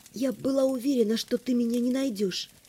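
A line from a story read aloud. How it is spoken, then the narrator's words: Quiet. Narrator (Russian): тихо сказала я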